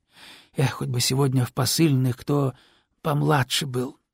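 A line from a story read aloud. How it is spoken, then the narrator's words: Wistful sigh. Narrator (Russian): тоскливо вздохнул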